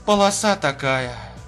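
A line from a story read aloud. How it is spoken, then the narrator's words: Sighing. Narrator (Russian): Вздохнула Рутман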